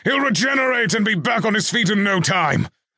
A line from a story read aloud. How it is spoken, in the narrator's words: Roland bellowed as he grappled with the golem, a mixture of grudging respect for the golem's power and fury in his voice